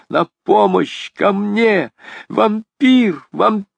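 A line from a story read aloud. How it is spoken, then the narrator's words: Desperate, straining scream. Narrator (Russian): Она сделала последние усилия и закричала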